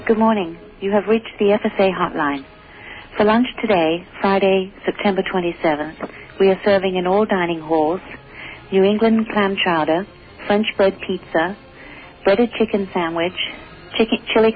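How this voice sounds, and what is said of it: Speaks with an accent. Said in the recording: “They've replaced her with somebody with an accent.”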